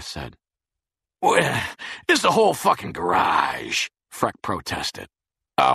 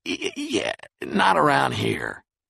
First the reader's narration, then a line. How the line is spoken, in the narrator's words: Freck said uneasily